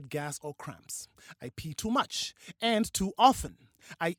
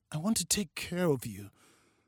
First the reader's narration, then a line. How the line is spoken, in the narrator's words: Steve said, his voice unsteady